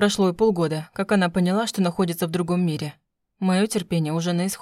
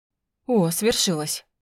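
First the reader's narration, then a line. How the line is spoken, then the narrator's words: Breathy exhale. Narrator (Russian): Выдохнул Альвир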